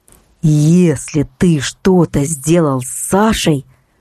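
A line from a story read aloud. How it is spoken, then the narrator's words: Through gritted teeth. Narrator (Russian): процедил Константин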